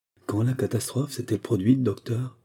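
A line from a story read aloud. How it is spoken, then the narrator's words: Broken voice. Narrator (French): demanda d'une voix brisée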